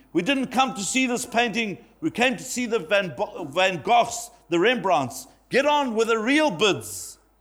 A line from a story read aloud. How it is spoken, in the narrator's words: Another voice shouted angrily